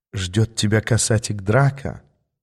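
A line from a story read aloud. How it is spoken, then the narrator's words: Whisper in ear. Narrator (Russian): прошептала она мне на ухо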